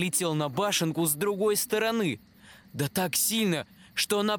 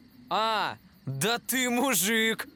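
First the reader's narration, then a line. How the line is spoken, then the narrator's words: Leader's loud laughter. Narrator (Russian): Главарь расхохотался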